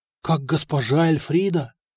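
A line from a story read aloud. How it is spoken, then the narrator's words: Embarrassed breathy exhale. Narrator (Russian): смущенно выдохнул мастер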